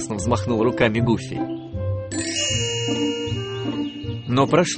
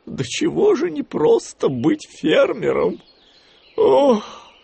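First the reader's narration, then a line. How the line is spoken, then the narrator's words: Sighed. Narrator (Russian): вздохнул Гуфи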